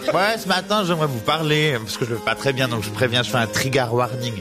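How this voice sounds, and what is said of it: Genevan Swiss French accent. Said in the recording (French): “C'est l'accent genevois”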